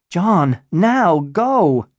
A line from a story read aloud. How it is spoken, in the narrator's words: she yelled